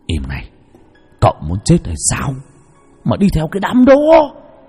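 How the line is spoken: Familiar whisper. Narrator (Vietnamese): giọng nói thì thầm quen thuộc vang lên

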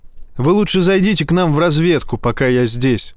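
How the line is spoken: Plain. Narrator (Russian): сказал Файн

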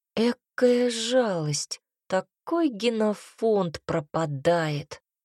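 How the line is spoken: Quiet mutter. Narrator (Russian): Пробормотала тихонько

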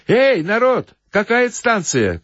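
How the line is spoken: Shouted. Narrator (Russian): крикнул

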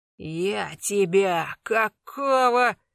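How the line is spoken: Hoarse swearing. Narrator (Russian): хрипел матом Колян

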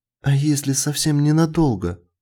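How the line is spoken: Pleading. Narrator (Russian): взмолилась Джилл

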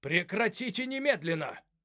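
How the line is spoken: Shouting. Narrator (Russian): закричал Джек Кристалл

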